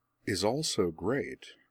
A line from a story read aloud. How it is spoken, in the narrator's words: Azula purred